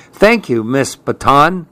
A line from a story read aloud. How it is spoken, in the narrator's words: said Marco